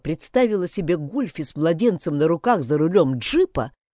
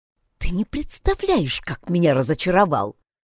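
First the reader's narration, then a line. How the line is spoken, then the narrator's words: Whisper into ear. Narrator (Russian): шепотом пообещала на ухо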